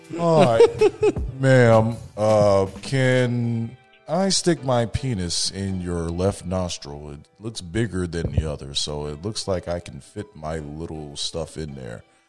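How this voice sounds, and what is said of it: Flat monotone male voice. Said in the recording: “said his voice is monotone”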